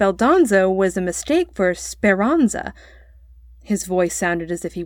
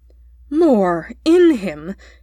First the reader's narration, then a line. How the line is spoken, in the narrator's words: he stamped irritably